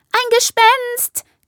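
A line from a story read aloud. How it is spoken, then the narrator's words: Shrieking. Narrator (German): kreischt das eine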